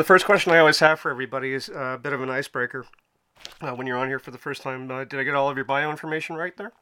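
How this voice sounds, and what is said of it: Slightly weak voice. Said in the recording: “forgive me, my voice is a little bit weak”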